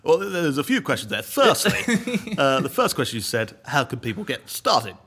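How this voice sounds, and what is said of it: Imitates another person's voice. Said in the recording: “I feel like I'm Boris Johnson there ... Was that a good impression? ... Yeah, yeah. Very good.”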